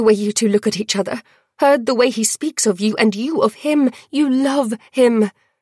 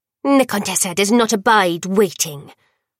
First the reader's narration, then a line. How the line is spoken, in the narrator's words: Worm snapped